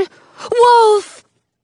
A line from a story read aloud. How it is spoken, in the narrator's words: Jonah cries